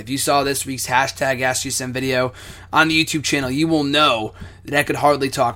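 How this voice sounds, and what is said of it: Hoarse, nearly lost voice. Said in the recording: “my voice is pretty much gone. It was a lot worse yesterday ... My voice was completely gone yesterday”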